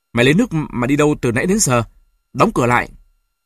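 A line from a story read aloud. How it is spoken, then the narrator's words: Scolding shout. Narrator (Vietnamese): Bà tôi quát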